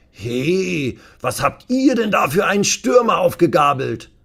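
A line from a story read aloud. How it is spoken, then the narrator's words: Calling out to someone. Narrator (German): rief Uwe dem Trainer zu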